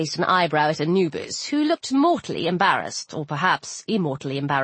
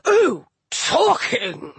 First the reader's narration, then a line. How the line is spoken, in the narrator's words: Shu bellowed